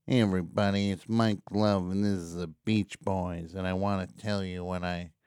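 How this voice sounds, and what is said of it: Imitates another person's voice. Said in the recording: “my Mike Love impression ... my famous Mike Love, my award-winning Mike Love impression”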